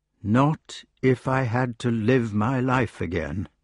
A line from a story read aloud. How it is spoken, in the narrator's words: replied the old fellow evenly